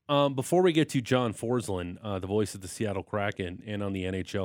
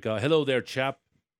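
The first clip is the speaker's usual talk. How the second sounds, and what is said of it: Put-on accent, done well. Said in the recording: “Your accent was really good.”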